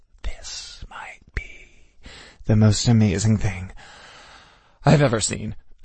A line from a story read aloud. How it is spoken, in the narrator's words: I breathed fervently